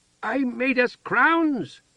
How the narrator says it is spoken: Heather shouted

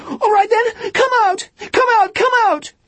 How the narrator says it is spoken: screaming in a thin voice like a bird

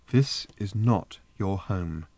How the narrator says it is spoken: said Trillian, still keeping her voice calm

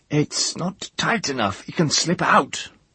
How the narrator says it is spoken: he grumbled

